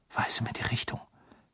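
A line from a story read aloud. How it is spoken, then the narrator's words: Whispering. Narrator (German): flüsterte er seinem Zauberstab zu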